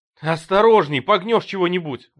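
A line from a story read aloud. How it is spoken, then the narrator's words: Shouting. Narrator (Russian): закричал Джейми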